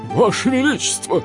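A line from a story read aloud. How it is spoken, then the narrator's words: Shouted. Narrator (Russian): крикнул он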